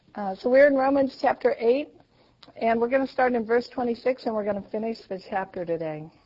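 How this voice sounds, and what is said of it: Scratchy, hoarse voice. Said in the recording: “give me my voice back. So I'm sorry you have to listen to this scratchiness”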